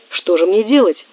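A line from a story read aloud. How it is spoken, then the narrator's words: Shout. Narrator (Russian): крикнул Горбой вслед президенту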